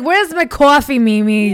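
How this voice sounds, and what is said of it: Put-on Brooklyn accent. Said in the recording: “very Brooklyn accent. ... I feel like I'm going to start talking like this”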